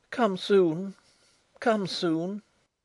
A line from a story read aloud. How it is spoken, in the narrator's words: sinking against me again, wailed softly